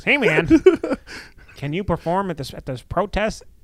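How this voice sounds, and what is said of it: Imitates another person's accent. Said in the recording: “We need the accent right away. ... that's how he talks”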